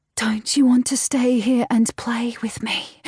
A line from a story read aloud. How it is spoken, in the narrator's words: My feigned, breathy voice shakes with emotion